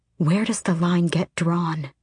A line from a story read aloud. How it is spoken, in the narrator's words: Asterin said quietly